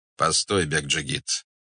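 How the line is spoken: Calm. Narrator (Russian): сказал он спокойно

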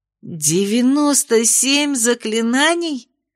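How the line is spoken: Horrified chorus of students. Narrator (Russian): С ужасом хором воскликнули студентки

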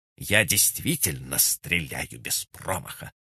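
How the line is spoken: Through gritted teeth. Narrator (Russian): процедила она

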